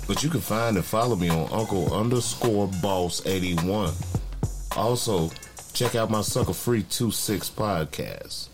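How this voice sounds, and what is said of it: Deep bassy radio voice. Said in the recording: “I know the people love my voice... I got that radio voice... You hear the bass knocking”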